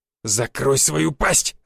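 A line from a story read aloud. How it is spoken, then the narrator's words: Growled. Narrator (Russian): зарычал Воробей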